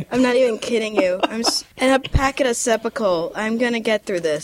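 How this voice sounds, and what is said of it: Congested, strained sick voice. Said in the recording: “I'm kind of sounding like David Carr at this point ... your voice is... ... I can't even breathe on my own right now”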